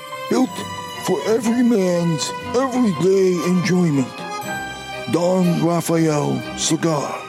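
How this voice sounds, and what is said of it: Ridiculous put-on cartoonish commercial voice. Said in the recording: “I was forced to do that read in that ridiculous voice. ... it sounds more like one of the characters from Futurama, or it sounds like the guy trying to send back soup in a deli”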